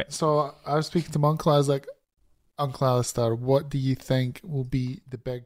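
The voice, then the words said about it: Hoarse, strained voice. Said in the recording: “I've lost my voice”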